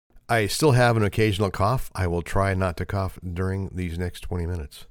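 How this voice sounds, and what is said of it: Unusually deep voice after illness. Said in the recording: “You can probably tell by my voice. It still has kind of that deep quality that I hope I can keep”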